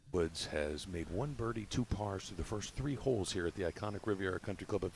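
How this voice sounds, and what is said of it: Golf TV announcer voice. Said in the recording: “golf announcer voice ... That was good.”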